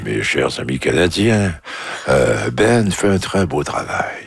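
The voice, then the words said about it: Imitates another person's voice. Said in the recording (French): “on avait besoin de votre imitation ... votre imitation, Brian Mulroney”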